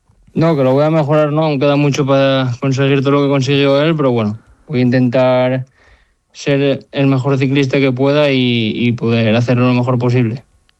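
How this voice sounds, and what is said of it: Asturian Spanish accent. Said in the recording (Spanish): “Me gusta mucho tu acento, ¿eh? Asturiano.”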